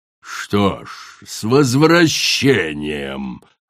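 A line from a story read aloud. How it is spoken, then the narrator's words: Growling queen. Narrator (Russian): прорычала королева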